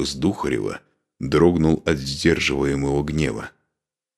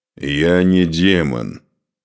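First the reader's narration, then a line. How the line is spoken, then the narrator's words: Growled. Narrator (Russian): прорычал Духарев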